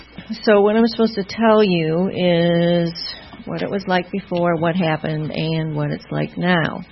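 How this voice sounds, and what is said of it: Funny regional American accent. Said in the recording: “That's why I have this funny accent.”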